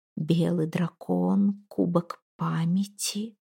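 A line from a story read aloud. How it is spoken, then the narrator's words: Whisper. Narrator (Russian): шептала она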